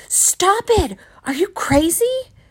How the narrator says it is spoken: She screamed at me

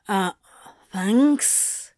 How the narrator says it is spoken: Crowley breathed

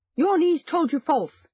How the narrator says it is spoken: he cried

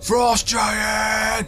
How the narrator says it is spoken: He screams

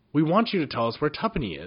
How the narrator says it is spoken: said Jinx firmly

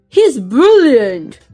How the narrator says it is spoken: cried Grandpa Joe

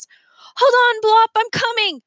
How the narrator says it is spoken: Remy shouted

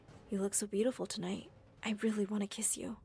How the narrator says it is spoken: He said softly

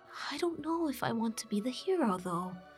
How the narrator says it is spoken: Majora whispered back to Randall

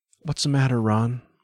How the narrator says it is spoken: Val asked sleepily

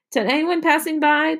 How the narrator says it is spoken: the lemonade stand shouted out

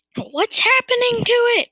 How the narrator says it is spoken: cried Mr

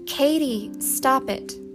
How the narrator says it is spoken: ordered Sissy sharply

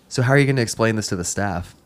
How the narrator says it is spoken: I chuckled

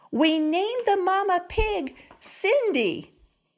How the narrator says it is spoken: The biggest boy shouted

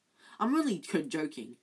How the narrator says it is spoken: Ron added hastily

